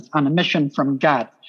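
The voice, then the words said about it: Chicago accent. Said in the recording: “I can say it in an authentic Chicago accent”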